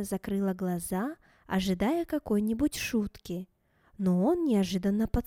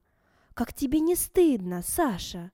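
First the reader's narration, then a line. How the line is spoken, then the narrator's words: Indignant. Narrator (Russian): Она возмущенно произнесла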